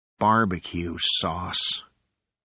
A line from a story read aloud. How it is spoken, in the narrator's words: he sighed